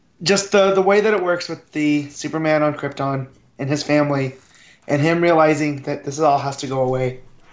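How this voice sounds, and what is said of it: Choked-up, tearful voice. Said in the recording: “he's actually getting choked up. He's crying. He's crying on the show.”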